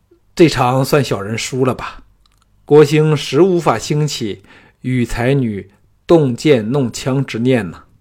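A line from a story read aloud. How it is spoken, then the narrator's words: Dazed sigh. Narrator (Chinese): 国兴失魂落魄，浑身发软，叹道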